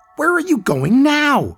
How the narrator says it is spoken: She shouted after him

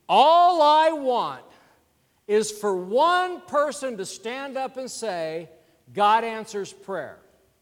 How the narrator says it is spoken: loudly

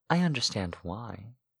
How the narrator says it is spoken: said softly

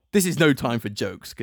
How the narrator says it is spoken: Katara snapped

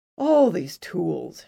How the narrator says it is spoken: sighed

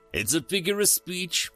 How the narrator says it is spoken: Ren Dodge said with a chuckle

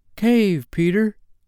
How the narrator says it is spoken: that smallest star of all called out

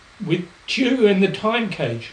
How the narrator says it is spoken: Larry exclaimed

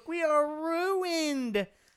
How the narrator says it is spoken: squealed Mark Zuckerberg, like a little girl in the sandbox

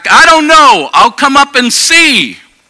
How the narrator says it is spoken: the 94-year-old sister hollered back

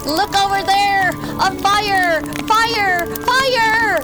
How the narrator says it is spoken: Benedict began to panic, and shouted

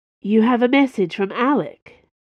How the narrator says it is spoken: she asked, her voice warm and inviting

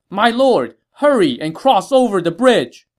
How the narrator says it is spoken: Ling Tong, seeing that things were not going well, shouted to Sun Quan

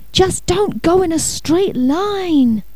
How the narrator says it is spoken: Alarmed, Vinny yelled

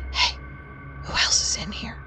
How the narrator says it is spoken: whispered very quietly

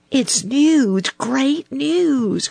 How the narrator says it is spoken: cried Little Joe

